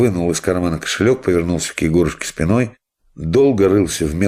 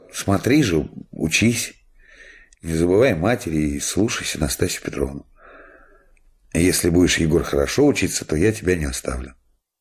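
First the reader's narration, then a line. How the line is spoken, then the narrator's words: Sad, embarrassed tone. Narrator (Russian): Он немножко покраснел, грустно улыбнулся и сказал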